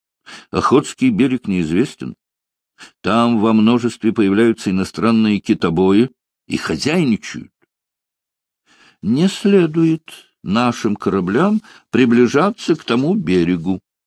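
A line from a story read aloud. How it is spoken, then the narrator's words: Stern didactic objection. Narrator (Russian): поучительно и строго возразил министр иностранных дел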